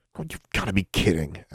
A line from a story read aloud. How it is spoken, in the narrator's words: Alexandra almost sputtered